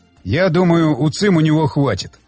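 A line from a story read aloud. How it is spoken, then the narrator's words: Plain. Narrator (Russian): сказал Щербатин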